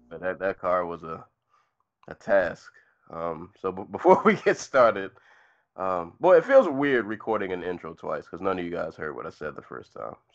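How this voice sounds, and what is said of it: Slightly sick, congested voice. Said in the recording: “I'm a little sick... my voice is not uh, it's not 100. percent Summer cold is in full effect... coughing and grunting and clearing my nose”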